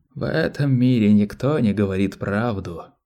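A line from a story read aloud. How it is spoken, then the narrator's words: Hoarse rasp. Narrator (Russian): прохрипел Малки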